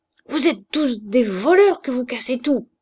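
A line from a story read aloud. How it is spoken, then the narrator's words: Harsh shout. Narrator (French): cria-t-il d'une voix dure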